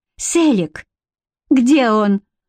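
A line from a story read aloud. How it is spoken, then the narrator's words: Cried out. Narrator (Russian): вскрикнула Бренна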